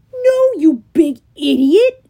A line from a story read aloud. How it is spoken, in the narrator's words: bellowed Clarice